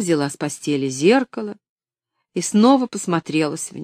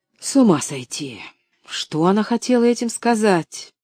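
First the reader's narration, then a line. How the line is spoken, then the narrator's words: Muttered. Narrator (Russian): пробормотала миссис Сноу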